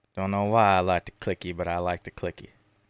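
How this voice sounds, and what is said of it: Put-on silly accent. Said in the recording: “you gotta say it in that accent too ... Oh, it sounds so stupid.”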